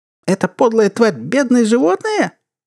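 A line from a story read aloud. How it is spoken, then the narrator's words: Stifled squeak. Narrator (Russian): придушенно пискнул подсудимый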